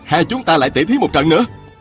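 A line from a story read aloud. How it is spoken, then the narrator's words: Shouted. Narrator (Vietnamese): chàng cũng quát lên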